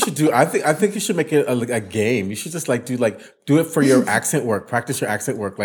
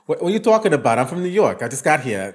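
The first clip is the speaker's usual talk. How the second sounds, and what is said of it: Exaggerated New York accent. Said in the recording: “do like a really big, like, New York accent”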